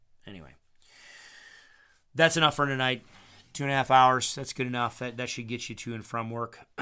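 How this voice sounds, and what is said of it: Tired, worn-out voice. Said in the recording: “My voice is getting tired.”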